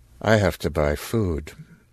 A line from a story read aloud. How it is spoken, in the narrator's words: In the same flat voice